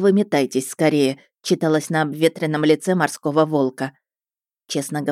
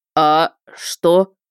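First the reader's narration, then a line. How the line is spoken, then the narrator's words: Deep, strained, coughing. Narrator (Russian): пробасил он с трудом, кашляя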